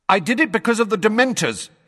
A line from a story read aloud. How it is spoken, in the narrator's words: he said loudly